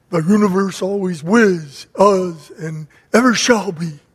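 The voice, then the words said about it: Carl Sagan impression. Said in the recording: “That's my impression of him ... Carl Sagan”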